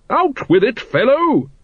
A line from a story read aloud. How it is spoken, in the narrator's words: Lady Ramkin boomed